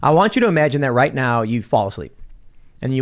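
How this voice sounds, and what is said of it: Usual voice. Nothing is said of it.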